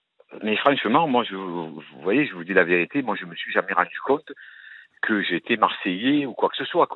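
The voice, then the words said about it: Marseille French accent. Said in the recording (French): “un truc marseillais ... je me suis rendu compte de mon accent ... vous avez un accent”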